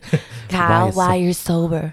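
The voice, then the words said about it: Put-on Southern accent. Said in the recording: “In the southern accent.”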